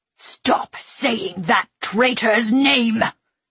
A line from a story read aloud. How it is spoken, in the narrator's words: the Padawan spat, seething with venomous anger